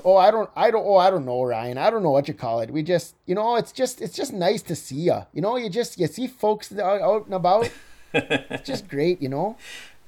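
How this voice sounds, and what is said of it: Exaggerated Minnesota accent with lilt. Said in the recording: “Minnesota accent ... lilt ... it sounds like an exaggerated version of your regular voice”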